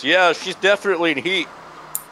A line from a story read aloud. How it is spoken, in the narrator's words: Marzo turns to Paul and shouts